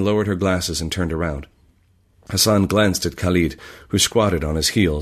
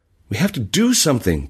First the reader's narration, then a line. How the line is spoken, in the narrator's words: Bashir cried